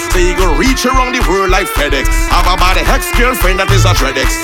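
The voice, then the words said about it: Trinidadian patois accent. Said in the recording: “Trinilingo ... I ain't changing my dialect, my patois”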